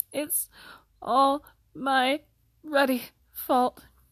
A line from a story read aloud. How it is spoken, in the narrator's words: he sobbed, face in his hands